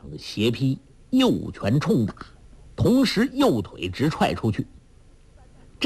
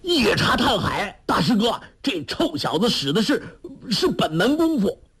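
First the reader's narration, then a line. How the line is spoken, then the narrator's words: Shouting. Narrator (Chinese): 侯通海大叫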